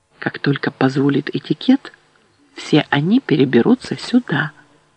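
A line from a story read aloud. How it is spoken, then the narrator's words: Whisper. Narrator (Russian): Меранотте прошептала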